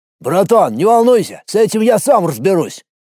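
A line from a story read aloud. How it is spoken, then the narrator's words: Shouted. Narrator (Russian): крикнул мне Пухляш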